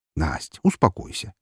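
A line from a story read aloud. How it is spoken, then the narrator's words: Soft. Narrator (Russian): мягко сказал я ей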